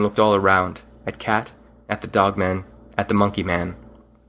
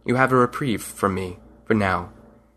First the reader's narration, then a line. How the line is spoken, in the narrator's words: stared coldly and said to them